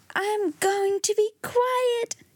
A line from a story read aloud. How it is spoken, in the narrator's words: Donald shouted